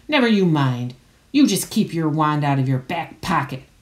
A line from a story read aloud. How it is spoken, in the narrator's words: growled Mad-Eye